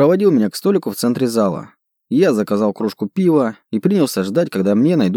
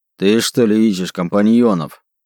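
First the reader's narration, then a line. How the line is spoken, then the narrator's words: Growled. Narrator (Russian): Прорычал он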